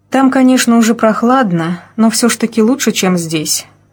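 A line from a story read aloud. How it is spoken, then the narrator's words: Sigh. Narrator (Russian): вздохнула Алина Евгеньевна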